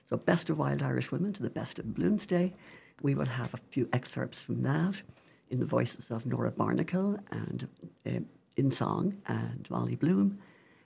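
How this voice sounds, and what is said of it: Speaks with a beautiful accent. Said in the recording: “just talk with that accent. It's just so beautiful.”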